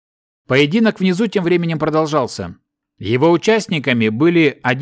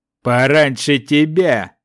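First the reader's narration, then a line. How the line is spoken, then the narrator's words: Gruff deep giant voice. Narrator (Russian): грубо пробасил великан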